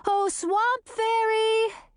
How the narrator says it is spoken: shouted across the river

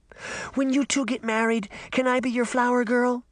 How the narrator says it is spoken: Daphne begged

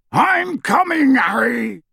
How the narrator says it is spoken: Hagrid yelled out of the darkness

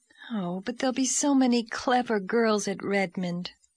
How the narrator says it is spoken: sighed Diana

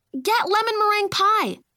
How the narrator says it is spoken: Sophie yelled from her bedroom next door

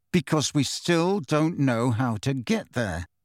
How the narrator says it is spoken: said Harry through gritted teeth

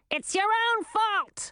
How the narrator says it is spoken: Olivine shouted over the din

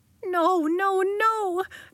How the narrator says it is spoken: Nori begged

